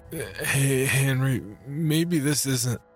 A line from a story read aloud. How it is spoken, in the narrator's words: Weakly, I interjected